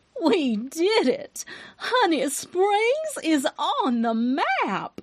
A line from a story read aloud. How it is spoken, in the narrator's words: exclaimed, her voice ringing with pride